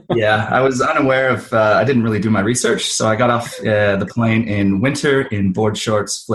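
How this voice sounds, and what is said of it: Canadian accent. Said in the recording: “where is that accent from? Tell us about the accent. ... I'm from Canada originally”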